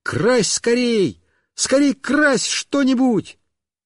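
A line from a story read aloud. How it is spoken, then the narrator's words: Joyful shout. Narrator (Russian): Мишка обрадовался и как закричит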